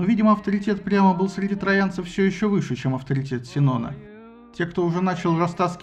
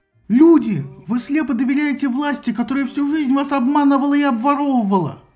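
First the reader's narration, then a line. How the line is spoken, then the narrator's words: Yelled. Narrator (Russian): завопил Синон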